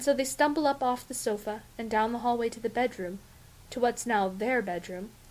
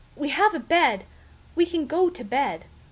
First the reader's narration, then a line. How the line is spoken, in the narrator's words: pinching a nerve, that Ray gasps